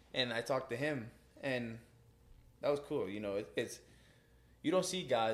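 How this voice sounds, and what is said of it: Usual voice. Nothing is said of it.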